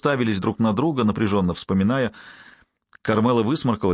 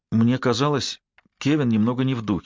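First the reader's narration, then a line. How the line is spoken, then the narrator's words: Plain. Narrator (Russian): сказала она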